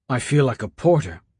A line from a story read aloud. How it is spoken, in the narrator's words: Raff said, wheezing between words